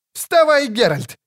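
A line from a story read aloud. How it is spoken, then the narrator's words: Shouting troubadour. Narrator (Russian): кричал трубадур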